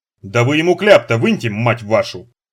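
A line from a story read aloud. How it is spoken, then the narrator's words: Cursing. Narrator (Russian): ругнулся начальник охраны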